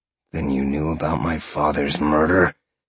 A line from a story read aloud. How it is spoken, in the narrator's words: Sean growled